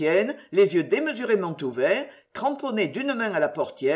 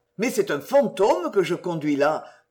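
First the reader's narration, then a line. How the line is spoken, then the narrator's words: Grumbling coachman. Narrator (French): grommela le cocher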